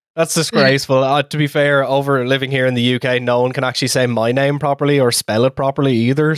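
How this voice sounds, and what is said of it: Irish accent. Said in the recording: “With his Irish accent”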